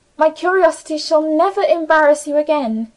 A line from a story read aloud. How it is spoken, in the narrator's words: answered warmly